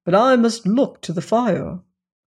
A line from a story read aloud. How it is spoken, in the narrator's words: he said firmly